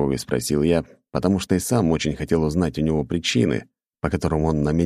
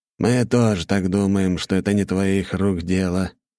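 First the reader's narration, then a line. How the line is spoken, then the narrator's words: Sad smile. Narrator (Russian): грустно улыбнулся Орлов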